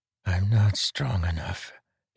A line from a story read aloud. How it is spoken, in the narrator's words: he whispered to the angry winds